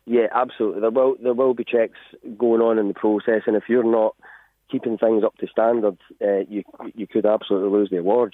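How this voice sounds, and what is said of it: Accent not local to Drogheda. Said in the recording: “I can tell from the accent there, you're not Drogheda local”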